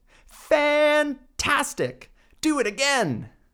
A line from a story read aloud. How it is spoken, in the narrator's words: Elizabeth shouted